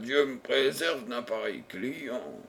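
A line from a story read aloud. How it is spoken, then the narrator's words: Exclaiming. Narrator (French): s'exclama-t-il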